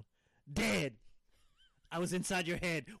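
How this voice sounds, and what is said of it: Yelling, loud shouted singing. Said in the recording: “I'm sorry for yelling”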